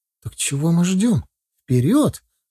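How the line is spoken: Joyful proclamation. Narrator (Russian): радостно провозгласила Лера

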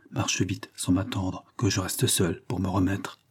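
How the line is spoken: Quietly added. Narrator (French): Puis tout bas, elle ajouta

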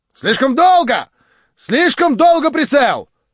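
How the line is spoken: Rapid shout. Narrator (Russian): стремительно прокричал Кириллов

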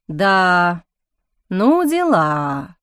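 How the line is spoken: Drawn-out. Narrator (Russian): протянул чародей

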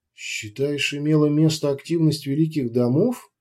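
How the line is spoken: Quiet queen inquiring. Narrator (Russian): негромко осведомилась королева

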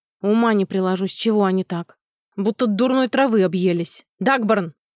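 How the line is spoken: Boss barking. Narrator (Russian): рявкнул начальник

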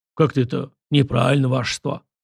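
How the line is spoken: Deep bass voice. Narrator (Russian): пробасил он

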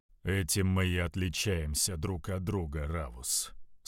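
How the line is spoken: Calm reply. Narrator (Russian): спокойно ответил Локсилус

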